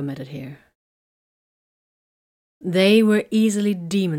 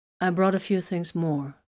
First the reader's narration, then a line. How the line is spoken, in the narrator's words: Vox said calmly